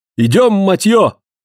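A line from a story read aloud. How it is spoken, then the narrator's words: Strangled shout. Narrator (Russian): крикнул он сдавленным голосом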